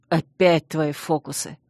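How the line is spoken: Irritated. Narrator (Russian): Раздраженно скривился Чейз

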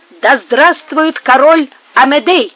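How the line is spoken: Shouting. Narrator (Russian): закричу

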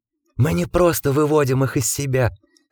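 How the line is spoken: Hoarse conspiratorial whisper. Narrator (Russian): хриплым заговорщическим шепотом продолжил Гардинер

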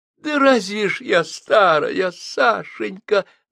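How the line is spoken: Sobbing. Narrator (Russian): зарыдала Жозефина

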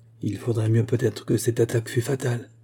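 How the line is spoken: Murmured. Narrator (French): murmura Joseph

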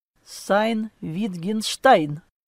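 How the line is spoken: Cold correction. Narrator (Russian): холодно поправил я

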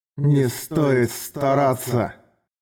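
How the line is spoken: Spiteful hiss. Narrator (Russian): Злобно прошипел высокий Раззак

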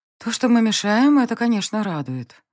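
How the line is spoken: Sighing, heavy yawn. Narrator (Russian): вздохнула я, жутко зевая

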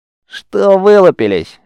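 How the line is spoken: Fierce female bark. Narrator (Russian): рявкнула на своих варварка

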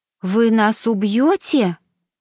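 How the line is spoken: Anxious question. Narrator (Russian): взволнованно спросила Мишель

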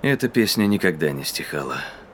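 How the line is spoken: Quiet reminder. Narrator (Russian): напомнил Ксейден тихо

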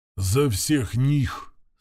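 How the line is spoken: Quiet. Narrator (Russian): сказал он тихо

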